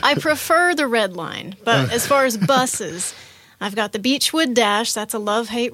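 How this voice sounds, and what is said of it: Georgia Southern US accent. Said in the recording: “she is from Georgia, if you couldn't tell from her accent already. All she had to say was woo-hoo, and you could hear Georgia.”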